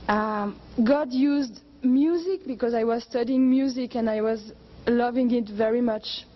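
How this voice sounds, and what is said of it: Speaks with a noticeable accent. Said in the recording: “if you can understand my accent”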